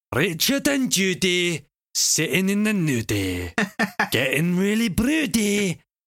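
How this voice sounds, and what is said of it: Put-on Scottish accent. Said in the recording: “never do a Scottish accent again ... I didn't do my warm-up”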